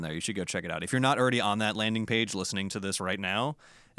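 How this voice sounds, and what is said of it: American accent. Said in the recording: “That sounds really weird to say with an American accent,”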